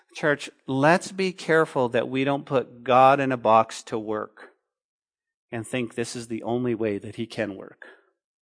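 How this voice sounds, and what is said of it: Speaking very slowly and deliberately. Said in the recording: “I'm going to say it very slowly so we can feel the weight of this.”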